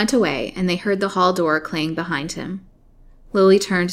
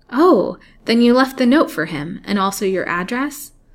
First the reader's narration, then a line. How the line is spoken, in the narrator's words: said Lily in a more hopeful tone